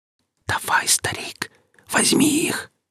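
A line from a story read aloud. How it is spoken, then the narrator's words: Whispered. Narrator (Russian): прошептал Гриф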